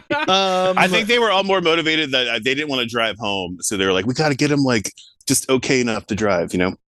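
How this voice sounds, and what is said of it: Strong regional American accent. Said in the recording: “that outrageous accent”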